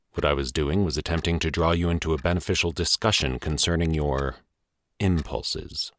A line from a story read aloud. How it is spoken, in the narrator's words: he said evenly